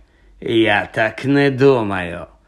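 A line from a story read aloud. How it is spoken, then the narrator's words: Cold smiling tone. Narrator (Ukrainian): холодно всміхнувся Снейп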